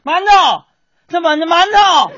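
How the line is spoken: Shouting. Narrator (Chinese): 满院子大喊呢

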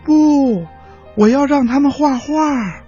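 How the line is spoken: Loud reply. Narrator (Chinese): 小驴大声的回答说

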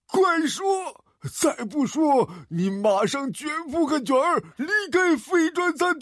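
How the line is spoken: Hysterical roar. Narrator (Chinese): 他歇斯底里的吼了一声

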